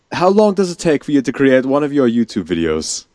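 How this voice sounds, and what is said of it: Attempted British accent sounding Russian. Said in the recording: “I'll ask the next question in a British accent... No, I can't. That's more Russian than anything else... It did sound a bit Russian”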